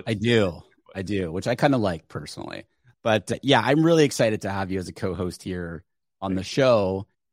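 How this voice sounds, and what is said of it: Strained late-night DJ voice. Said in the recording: “I almost lost my voice completely... You have that late night DJ voice.”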